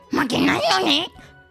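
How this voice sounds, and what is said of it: Imitated cartoon character voice. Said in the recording (Japanese): “緑の牧場王の牧場王の声”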